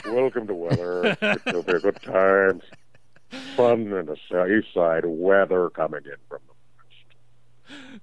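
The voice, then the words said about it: Newscaster-style announcer voice. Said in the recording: “You've got that news voice.”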